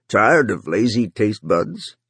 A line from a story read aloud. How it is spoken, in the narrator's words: Runciter said in his familiar gravelly voice